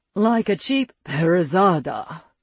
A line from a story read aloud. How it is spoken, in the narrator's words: Soren growled